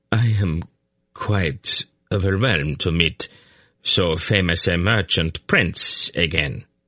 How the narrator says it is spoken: Valgon murmured politely

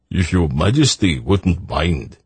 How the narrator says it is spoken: he said, so that Geryon could hear him over the sounds of laughter and sprightly conversation from nearby tables

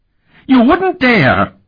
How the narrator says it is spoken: Harperin squealed, cringing back

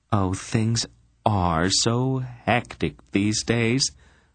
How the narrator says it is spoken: the Queen of Sindaria sighed

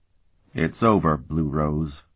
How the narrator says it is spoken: Sparhawk said wearily to the Belion

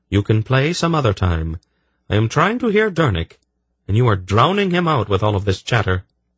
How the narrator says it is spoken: Baldra's voice cut in firmly

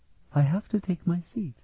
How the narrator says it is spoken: Sephrenia told them quietly

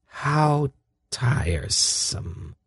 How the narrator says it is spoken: Salmisra sighed

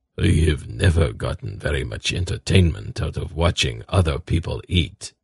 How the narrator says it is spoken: Zakath said quietly to Geryon

